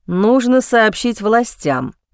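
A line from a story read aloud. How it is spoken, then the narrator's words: Angry, through gritted teeth. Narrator (Russian): зло процедил Роберт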